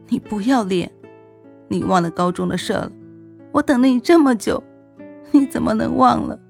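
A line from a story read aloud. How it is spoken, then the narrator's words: Hysterical sobbing. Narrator (Chinese): 我哭得那么凶，眼泪哗哗的往下流，疯了似的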